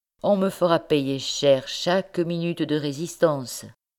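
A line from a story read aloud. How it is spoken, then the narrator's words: Plain. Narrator (French): dit-il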